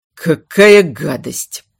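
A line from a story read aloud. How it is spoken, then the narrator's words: Grumbling. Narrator (Russian): проворчал Эйдард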